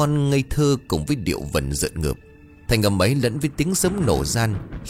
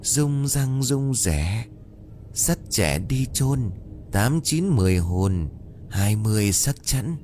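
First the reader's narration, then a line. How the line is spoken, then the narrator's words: Child singing softly. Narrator (Vietnamese): thằng bé vốn mắc bệnh chậm nói, bỗng bật nhìn tiếng hát khẽ khẽ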